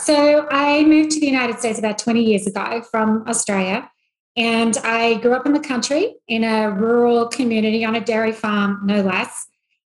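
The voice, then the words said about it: Australian accent. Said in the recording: “She's also from Australia, so we'll get the exciting accent.”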